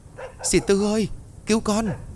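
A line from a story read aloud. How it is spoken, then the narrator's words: Frightened cry. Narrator (Vietnamese): sợ hãi kêu lên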